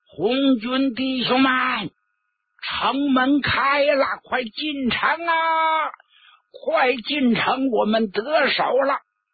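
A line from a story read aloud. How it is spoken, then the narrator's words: Loud shout. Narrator (Chinese): 王维农高声呼喊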